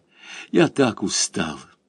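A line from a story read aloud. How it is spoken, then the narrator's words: Whisper. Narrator (Russian): Муж прошептал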